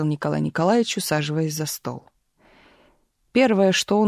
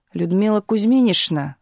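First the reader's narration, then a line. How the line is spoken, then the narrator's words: Sudden yell. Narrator (Russian): вдруг заорал начальник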